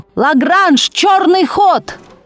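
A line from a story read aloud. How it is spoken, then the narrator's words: Desperate shout. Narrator (Russian): Матвей Бенционович отчаянно крикнул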